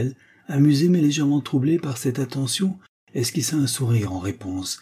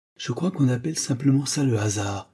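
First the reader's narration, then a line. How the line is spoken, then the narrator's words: Soft laughing reply. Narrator (French): répondit-elle en riant doucement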